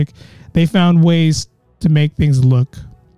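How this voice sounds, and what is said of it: Usual voice. Nothing is said of it.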